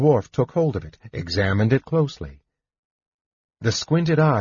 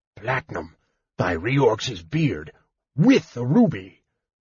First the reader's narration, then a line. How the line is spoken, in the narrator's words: he was overheard to mutter